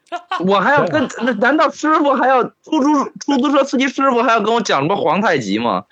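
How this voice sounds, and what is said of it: Beijing-accented Mandarin. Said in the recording (Chinese): “我这么明显，在别人听来这么明显的北京口音 ... 出租车司机都会问我是不是东北的 ... 你现在这个口音叫北京口音”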